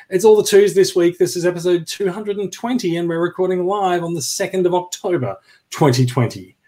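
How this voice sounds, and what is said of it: Australian accent. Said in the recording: “in Australian accents.”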